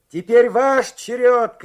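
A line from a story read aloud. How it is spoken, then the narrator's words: Shout. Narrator (Russian): крикнул он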